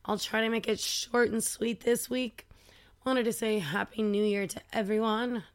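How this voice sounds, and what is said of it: Hoarse, scratchy, squeaky voice. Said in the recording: “my voice is just, like, properly fucked, so I hope you can deal with all the scratching and squeaking”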